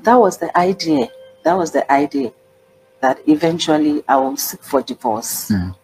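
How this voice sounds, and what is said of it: African accent. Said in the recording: “she has an African accent”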